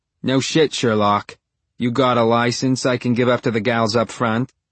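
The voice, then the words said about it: Very thick regional accent. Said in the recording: “her accent is so thick that I feel bad for the words coming out of her mouth”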